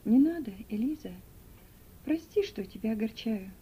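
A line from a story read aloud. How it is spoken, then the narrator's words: Tender. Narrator (Russian): нежно сказал он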